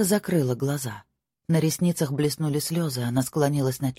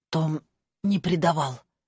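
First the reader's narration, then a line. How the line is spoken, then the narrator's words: Hoarse. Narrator (Russian): хрипло сказала Мира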